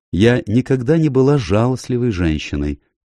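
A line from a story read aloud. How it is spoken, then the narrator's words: Grim. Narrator (Russian): мрачно сказала миссис Лоример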